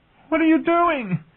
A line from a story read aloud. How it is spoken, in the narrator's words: shrieked